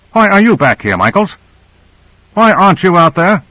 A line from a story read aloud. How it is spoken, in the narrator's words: harshly